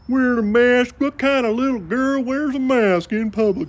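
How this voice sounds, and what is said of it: Mocking voice in a put-on accent. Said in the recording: “I don't know why he has this accent, but either. He did in the dream.”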